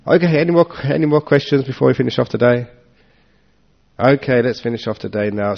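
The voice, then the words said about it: Sore-throated voice with a cold. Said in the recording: “because I have got a sore throat, because I have got a cough and a cold”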